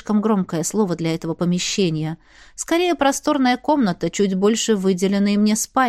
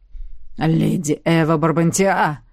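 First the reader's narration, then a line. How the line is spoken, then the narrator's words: Growling drawl. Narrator (Russian): рычаще протянул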